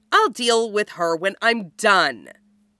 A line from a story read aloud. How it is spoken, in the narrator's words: Cameron says with a sneer